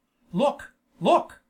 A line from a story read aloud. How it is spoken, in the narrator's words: he exclaimed